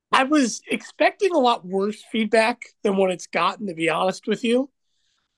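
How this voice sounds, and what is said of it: Unwell, strained-sounding voice. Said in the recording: “you can tell by my voice. You know how I talk regularly. Granted, I have a deep, raspy voice, but I genuinely don't typically sound like Mickey Mouse”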